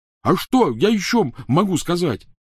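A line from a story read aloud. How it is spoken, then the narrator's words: Yelled. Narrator (Russian): заорал Рон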